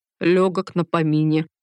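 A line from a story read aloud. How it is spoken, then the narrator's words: Grumbling. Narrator (Russian): проворчала Рита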